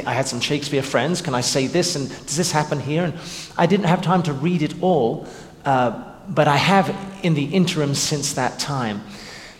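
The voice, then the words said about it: English accent. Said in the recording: “having grown up in England, as you probably can tell from my accent”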